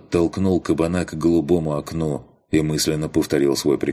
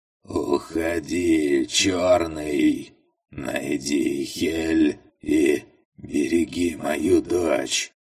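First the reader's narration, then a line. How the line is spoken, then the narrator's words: Hoarse rasp. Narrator (Russian): прохрипел он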